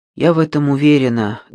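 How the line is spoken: Sighing. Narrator (Russian): Джейми вздохнула

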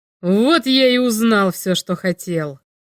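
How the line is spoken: Growl. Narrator (Russian): прорычал Грэхэм

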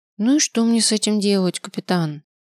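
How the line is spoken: Glum question. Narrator (Russian): уныло спросила она

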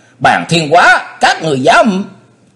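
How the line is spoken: Sudden cry. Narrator (Vietnamese): Yến Thích chỉ kịp la lên

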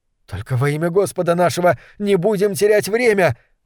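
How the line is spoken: Young man's desperate plea. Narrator (Russian): взмолился юноша

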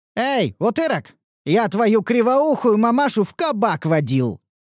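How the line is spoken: Shouted. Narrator (Russian): крикнул я

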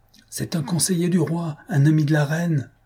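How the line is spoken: Man exclaiming. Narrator (French): s'écriait un homme

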